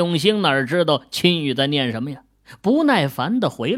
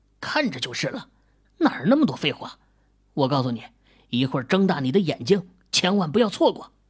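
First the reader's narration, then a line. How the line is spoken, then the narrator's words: Soft question. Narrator (Chinese): 李兵轻声问道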